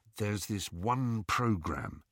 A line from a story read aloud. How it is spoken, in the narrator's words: he told Harry in a low voice